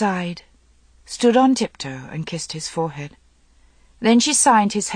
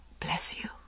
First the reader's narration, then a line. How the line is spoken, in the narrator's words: whispered